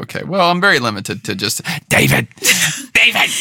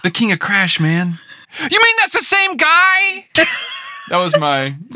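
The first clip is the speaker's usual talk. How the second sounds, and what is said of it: Imitates another person's voice. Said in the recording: “You just sound like your Jeff Bridges impression.”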